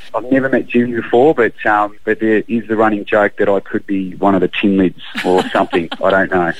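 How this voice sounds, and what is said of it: Australian accent. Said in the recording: “How did the Aussie accent go down there in the states? ... they love the Aussie accent”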